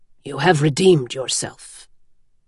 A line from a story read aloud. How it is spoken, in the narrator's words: he said quietly